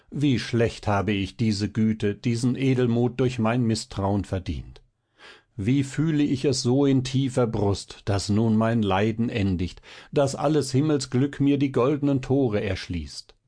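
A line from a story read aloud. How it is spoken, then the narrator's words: Cried out. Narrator (German): rief Balthasar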